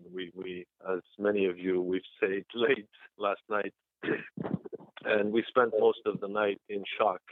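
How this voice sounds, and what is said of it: Rusty, slightly hoarse voice. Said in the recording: “my voice is a little rusty this morning”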